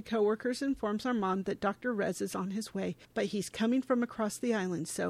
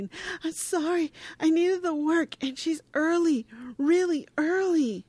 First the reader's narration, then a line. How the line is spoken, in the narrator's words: Lonnie sobs, saying